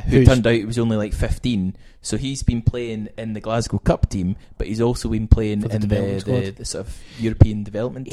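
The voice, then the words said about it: Scottish Helensburgh Dumbarton accent. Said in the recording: “It's not even really an Edinburgh accent that much. It's more of a Helensburgh Dumbarton twang”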